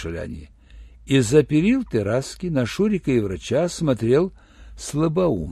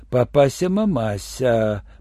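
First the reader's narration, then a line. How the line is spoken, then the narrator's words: Stunned breathless exclamation. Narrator (Russian): потрясенно выдохнул врач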